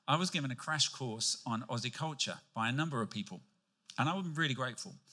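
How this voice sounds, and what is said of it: British accent. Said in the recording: “When I came to Australia from the UK, if you hadn't picked that up by my accent”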